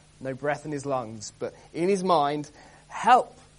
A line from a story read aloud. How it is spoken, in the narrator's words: He cries out to the Lord